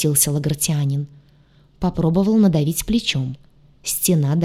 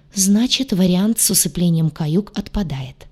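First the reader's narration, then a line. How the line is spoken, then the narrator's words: Sighing. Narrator (Russian): вздохнул Урак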